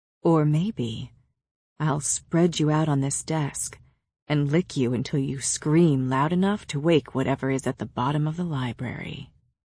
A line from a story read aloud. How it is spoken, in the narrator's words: whispered in my ear